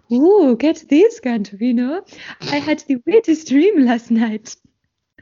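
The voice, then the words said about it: Fancy French-sounding lady voice. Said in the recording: “doing a fancy voice ... Why is she French?”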